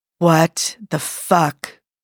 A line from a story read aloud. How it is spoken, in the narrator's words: whispers Joe through the cage of his fingers